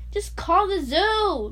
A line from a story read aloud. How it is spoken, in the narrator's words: Bradley pleaded